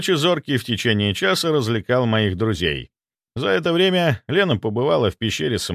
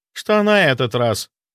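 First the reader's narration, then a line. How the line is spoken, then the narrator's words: Displeased question. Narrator (Russian): недовольным тоном спросила она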